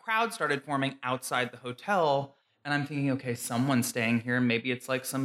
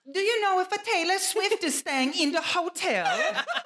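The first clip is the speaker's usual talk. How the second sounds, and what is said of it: Deliberately bad Italian accent. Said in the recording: “this is my terrible Italian accent”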